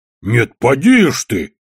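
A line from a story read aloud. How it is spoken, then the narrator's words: Growled. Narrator (Russian): зарычал Одноглазый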